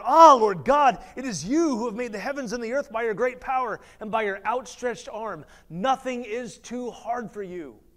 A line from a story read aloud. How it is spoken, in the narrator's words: he cried out